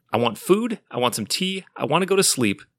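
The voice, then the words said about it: Strained, worn-out voice. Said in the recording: “My voice is shot from doing Nick Fury”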